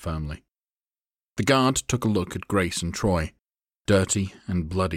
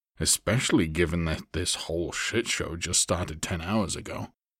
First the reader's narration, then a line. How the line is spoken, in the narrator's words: Troy said with a sigh